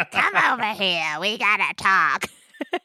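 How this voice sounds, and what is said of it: Imitated character voice. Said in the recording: “My impression of Wallace doing Parlo. ... It's hard to do Wallace doing Parlo.”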